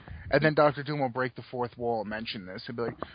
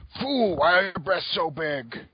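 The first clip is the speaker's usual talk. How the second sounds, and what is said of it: Poor Dr. Doom impression. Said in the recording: “I'm a shitty Dr. Doom impersonator.”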